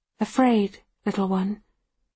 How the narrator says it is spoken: Her voice is almost gentle

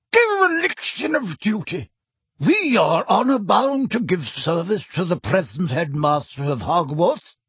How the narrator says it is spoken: cried a frail-looking old wizard, whom Harry recognised as Dumbledore's predecessor, Armando Dippet

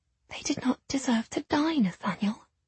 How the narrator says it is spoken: I whispered

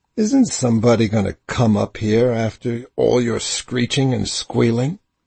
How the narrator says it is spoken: He said harshly

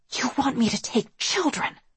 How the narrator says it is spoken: I hissed

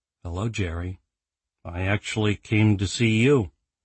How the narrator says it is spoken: replied evenly

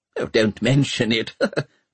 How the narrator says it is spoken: chuckled Pomeroy

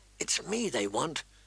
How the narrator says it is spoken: Arya whispered back

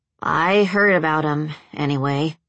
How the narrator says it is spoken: Jason muttered

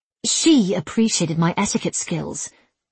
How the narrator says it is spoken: En snapped

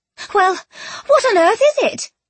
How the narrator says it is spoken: Penelope blurted, annoyed

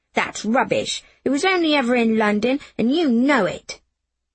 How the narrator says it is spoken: I said fiercely

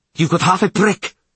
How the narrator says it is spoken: Frigga snapped

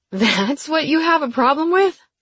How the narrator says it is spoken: I laughed

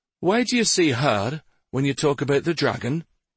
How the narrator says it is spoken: one of the younger traders asked in a timid tone

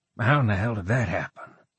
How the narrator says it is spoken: He muttered to himself

